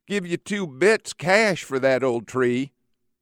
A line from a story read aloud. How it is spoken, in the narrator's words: the rich mill owner's lazy wife leans out and whines